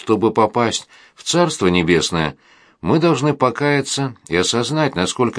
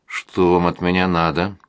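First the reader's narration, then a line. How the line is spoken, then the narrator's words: Muttering. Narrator (Russian): пробормотал я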